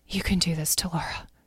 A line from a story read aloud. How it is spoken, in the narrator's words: she whispered to herself